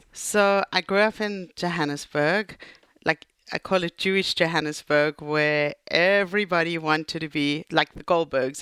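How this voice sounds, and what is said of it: South African accent. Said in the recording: “This isn't a Brooklyn accent. ... We picked up on that right away. ... your story actually starts in South Africa”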